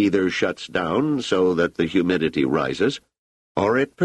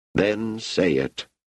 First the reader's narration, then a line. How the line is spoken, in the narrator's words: said Namarty wearily